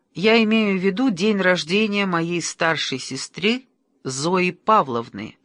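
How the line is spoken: Plain. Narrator (Russian): ответила Галина

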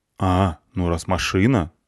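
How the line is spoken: Plain. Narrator (Russian): сказал я

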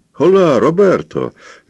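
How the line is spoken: Cheerful shout. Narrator (Russian): весело крикнул

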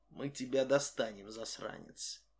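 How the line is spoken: Said quietly. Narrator (Russian): тихо сказал

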